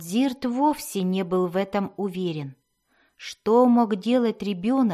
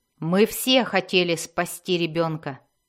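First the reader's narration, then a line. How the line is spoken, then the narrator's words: Sharp. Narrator (Russian): резко сказал Хатчнет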